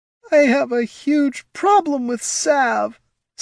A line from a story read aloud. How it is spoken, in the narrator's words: sobbed Caitha